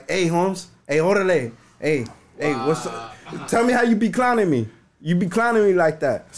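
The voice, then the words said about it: Imitates another person's accent. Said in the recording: “I know his accent ... if he does his accent”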